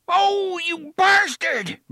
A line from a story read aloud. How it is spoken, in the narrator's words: Brandon shouted in surprise and pain